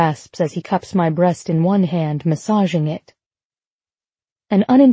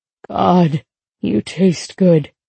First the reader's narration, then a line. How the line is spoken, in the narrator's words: he rasps